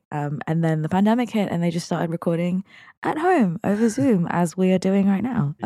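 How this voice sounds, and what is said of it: Run-down, unwell-sounding voice. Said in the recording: “I was so run down, as you can hear in my voice”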